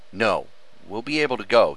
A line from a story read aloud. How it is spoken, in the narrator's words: he said firmly